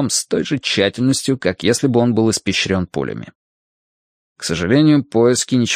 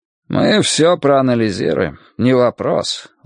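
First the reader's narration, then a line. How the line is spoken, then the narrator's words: Weary. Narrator (Russian): устало сказал Хардвик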